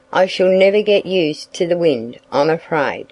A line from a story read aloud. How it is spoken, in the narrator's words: Daddy told him sadly